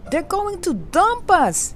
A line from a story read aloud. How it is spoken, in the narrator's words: Gretel cried